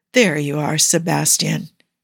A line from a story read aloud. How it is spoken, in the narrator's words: he murmurs